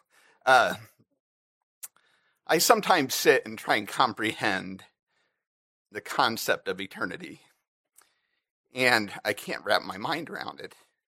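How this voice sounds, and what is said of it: Emotional, voice choked up. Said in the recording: “I don't know why I'm getting emotional.”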